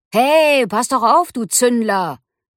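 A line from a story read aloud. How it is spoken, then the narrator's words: Air elemental calling out. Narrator (German): rief das Luftelement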